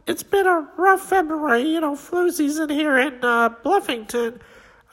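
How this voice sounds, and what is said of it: Cartoon character voice. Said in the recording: “Accepting for Skeeter is ... Skeeter was able to make it”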